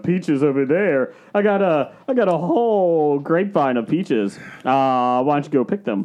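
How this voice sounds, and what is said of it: Made-up character voice. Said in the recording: “I don't know how to do Hunter McAllister anymore... It's not really an impression when it's a character he made up”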